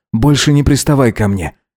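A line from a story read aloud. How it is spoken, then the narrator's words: Commanding. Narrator (Russian): велел Гидеон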